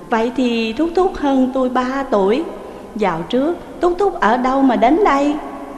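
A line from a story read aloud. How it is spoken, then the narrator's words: Smiling woman. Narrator (Vietnamese): Người đàn bà mỉm cười mà rằng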